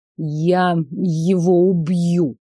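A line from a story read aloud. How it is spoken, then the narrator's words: Through gritted teeth. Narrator (Russian): процедил Елисей сквозь зубы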